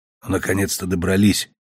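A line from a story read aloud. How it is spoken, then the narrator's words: Whisper. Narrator (Russian): прошептал я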